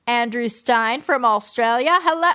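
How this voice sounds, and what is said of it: Bad exaggerated Australian accent. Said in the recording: “I didn't even mean to do an Australian accent ... which is a terrible, terrible accent. It's like a Finding Nemo Australian accent”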